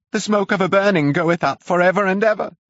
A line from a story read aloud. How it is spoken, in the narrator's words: shouted